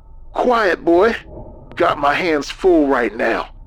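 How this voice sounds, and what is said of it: Strained, breathless voice. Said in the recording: “His voice was strained, breathless.”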